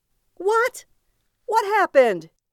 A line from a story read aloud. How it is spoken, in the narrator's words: cried out